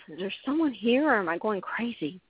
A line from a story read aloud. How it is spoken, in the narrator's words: Williams whispered to himself